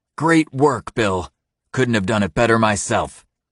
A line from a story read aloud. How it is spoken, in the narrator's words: Eric says loudly